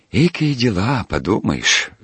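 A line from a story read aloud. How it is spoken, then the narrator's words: Sighing, dismissive. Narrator (Russian): вздохнул Пантелей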